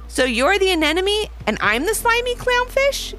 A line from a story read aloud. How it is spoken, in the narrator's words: giggled Ivy